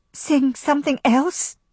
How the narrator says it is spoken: Fanny said in a faint, strangled voice

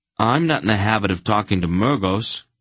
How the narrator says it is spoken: Garion said stiffly

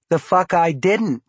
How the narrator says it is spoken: she replied, and then compounded this astoundingly disrespectful statement with a contemptuous little laugh

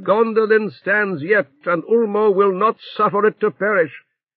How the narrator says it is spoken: Tuor, speaking wildly for ruth and love of the king, cried

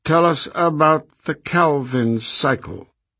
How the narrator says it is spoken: she said coldly

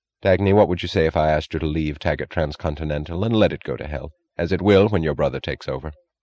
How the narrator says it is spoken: Without transition or warning, he asked, his voice oddly unstressed

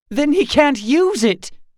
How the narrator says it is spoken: cried Daphne

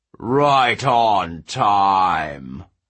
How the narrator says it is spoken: the giant king bellowed

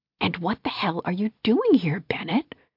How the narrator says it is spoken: she stage whispered

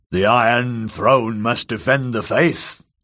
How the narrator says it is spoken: growled the hulking lout

